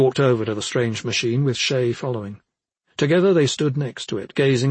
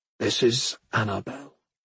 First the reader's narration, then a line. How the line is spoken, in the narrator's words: Rokan said softly